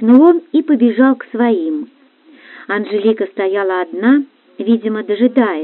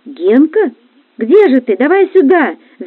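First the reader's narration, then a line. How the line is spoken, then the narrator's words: Distant shouting. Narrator (Russian): закричали с раскопок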